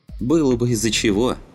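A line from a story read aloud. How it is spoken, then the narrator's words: Dismissive snort. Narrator (Russian): хмыкнул Али, сын владельца дома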